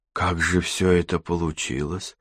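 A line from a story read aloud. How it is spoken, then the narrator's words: Hoarse voice. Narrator (Russian): хриплым голосом произнесла Катерина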